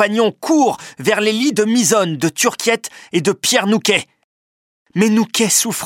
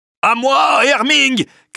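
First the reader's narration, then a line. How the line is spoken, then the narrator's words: Shouted. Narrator (French): crie André Vasling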